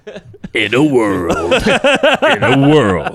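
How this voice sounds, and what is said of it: Movie trailer narrator voice. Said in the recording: “do your movie voice, though, because you do a good job with that”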